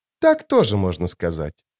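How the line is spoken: Dry. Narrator (Russian): сухо заметила Зависть

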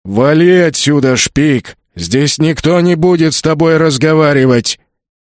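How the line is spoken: Orc's booming drone. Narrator (Russian): прогудел орк

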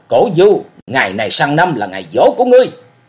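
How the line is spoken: Frenzied shout. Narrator (Vietnamese): Lý Mộng quát điên cuồng

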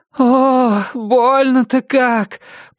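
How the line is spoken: Woman moaning. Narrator (Russian): простонала женщина

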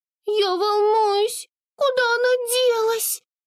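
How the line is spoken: Anxious squeak. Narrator (Russian): встревоженно пропищала Амур

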